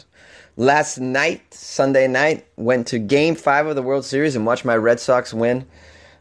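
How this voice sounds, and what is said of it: Hoarse, partly lost voice. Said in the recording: “As you can tell, I've kind of lost my voice a little bit. I was screaming a lot.”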